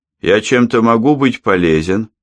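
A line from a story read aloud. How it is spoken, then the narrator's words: Plain. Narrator (Russian): сказал он вслух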